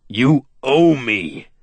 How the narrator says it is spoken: he shouted, his voice ringing through the cavern

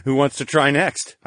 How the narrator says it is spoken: chuckled

